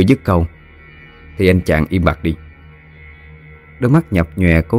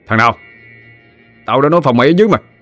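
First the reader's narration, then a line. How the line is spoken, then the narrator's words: Shouting. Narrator (Vietnamese): Bùi quát lên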